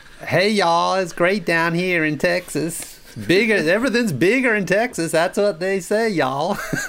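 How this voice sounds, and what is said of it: Put-on Southern American accent. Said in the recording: “trying to do a Southern accent ... Not bad, yeah.”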